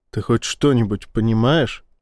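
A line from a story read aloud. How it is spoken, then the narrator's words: Plain. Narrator (Russian): спросил он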